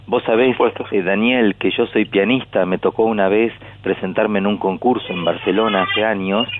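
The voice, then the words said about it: Argentine pampeano accent. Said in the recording (Spanish): “yo fui con mi acento de peguajó ... nunca pierdas tu acento pampeano”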